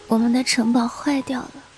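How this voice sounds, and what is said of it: Soft, faint, childlike murmur. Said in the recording (Chinese): “像个孩子一样呓语着，声音轻的仿佛从另外一个世界飘来”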